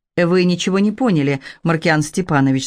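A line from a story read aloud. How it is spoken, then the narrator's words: Plain. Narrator (Russian): сказал он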